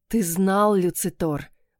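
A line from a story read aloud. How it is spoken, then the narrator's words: Hoarse, shaking. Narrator (Russian): просипела, сотрясаясь всем телом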